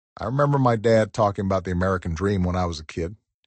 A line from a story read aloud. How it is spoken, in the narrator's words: he said